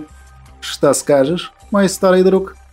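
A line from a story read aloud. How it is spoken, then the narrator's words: Plain question. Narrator (Russian): спросил Вайстера Рудольф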